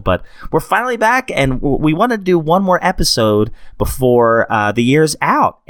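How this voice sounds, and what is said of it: Sick-sounding voice. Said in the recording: “I don't know if you can tell from my voice, but we have had sickness”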